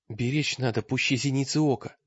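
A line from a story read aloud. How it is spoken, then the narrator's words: Whisper. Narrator (Russian): прошептал он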